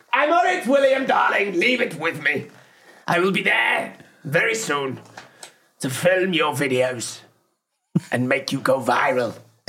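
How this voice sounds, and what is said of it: Camp, theatrical impression. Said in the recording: “my new impression of him ... He's very, like, thespian and camp ... Camp.”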